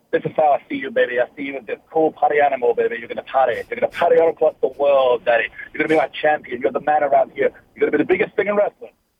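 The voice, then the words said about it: Dusty Rhodes impression. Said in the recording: “We've all got a dusty impression in wrestling. I remember him sitting me down and going”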